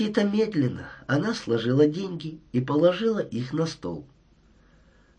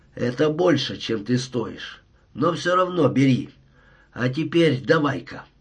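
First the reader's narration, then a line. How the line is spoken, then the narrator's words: Said roughly. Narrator (Russian): Я грубо сказал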